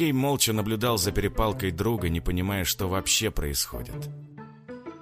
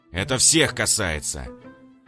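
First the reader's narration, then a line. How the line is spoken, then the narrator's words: Growled. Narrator (Russian): прорычал капитан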